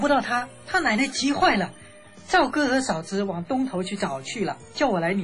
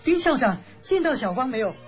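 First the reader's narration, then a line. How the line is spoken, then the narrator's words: Breathless question. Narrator (Chinese): 小刘弟兄气喘吁吁地问我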